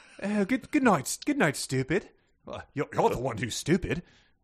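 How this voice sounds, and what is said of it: Put-on refined British accent. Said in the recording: “it's in a british accent too so it's very refined stupid ... give me your british accent again”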